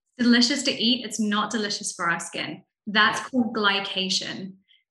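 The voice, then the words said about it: Non-American foreign accent. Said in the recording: “clearly you weren't born here in America. I can tell by the accent.”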